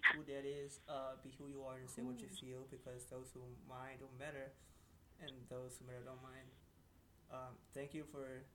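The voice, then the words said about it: Sad, emotional voice. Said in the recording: “Why you sound so sad? ... Like someone passed away.”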